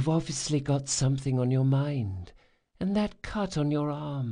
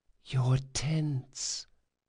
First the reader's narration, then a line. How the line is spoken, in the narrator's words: whispered Felice